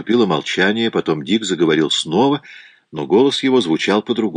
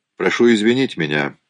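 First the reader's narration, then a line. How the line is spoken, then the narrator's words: Cold. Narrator (Russian): холодно сказал он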